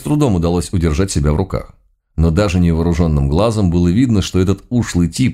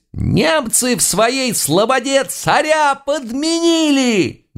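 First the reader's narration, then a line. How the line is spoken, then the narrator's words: Sudden loud thin wail. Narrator (Russian): Неожиданно громко, тонким голоском взвыл дьяк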